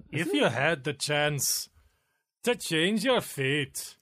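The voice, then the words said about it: Good put-on movie-character accent. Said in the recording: “That's a good accent... Pretty good, actually... That was her line”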